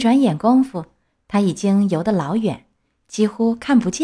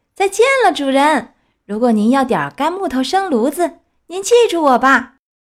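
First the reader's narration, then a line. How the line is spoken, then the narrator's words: Laughing, louder shout. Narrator (Chinese): 他一面笑 叫得更响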